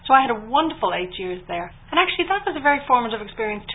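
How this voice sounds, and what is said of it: Irish accent. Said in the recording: “to be Irish in Britain ... people loved my accent ... my Irishness”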